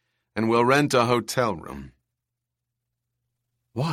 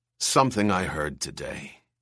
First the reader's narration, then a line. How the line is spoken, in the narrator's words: he said hoarsely